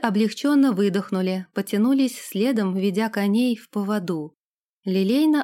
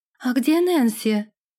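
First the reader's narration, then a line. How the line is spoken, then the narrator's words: Exclaimed. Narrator (Russian): воскликнула она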